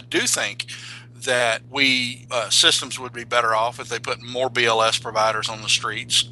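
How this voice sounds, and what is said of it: Regional accent, slow speech. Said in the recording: “just coming in with that accent ... I talk slow.”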